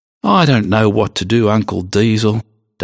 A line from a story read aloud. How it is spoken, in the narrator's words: Doug said sadly